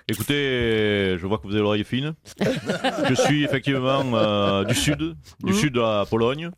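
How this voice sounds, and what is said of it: Strange southern French accent. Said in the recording (French): “Vous avez un drôle d'accent du sud, hein, pourtant.”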